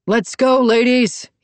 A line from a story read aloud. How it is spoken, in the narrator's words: he yelled